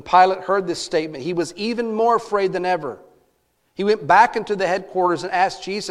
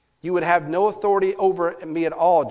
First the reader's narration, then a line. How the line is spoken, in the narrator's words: Jesus answered him